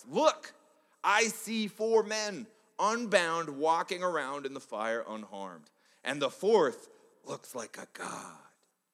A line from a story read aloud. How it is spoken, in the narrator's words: Nebuchadnezzar shouts